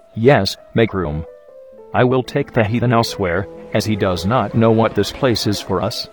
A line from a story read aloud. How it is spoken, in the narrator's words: Jesus says calmly